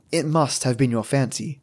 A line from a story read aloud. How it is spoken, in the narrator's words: said his wife, regarding him anxiously